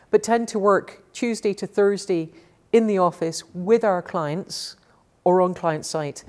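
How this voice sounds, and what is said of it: Scottish accent. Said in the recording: “I live in Scotland. ... You can probably tell from the accent”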